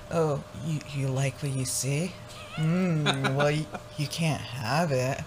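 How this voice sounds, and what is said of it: Flirty seductive bedroom voice. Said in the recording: “Oh, total flirty bedroom voice.”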